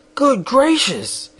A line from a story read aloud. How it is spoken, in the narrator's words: exclaimed Shaggy